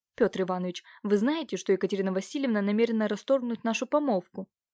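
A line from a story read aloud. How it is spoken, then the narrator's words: Quick hushed blurt. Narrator (Russian): Илья Дмитриевич, не желая, чтобы женщины услышали его слова, быстро выпалил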